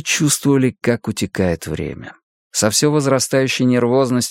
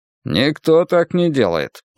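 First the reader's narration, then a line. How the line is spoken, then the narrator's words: Grumble. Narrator (Russian): проворчал Янус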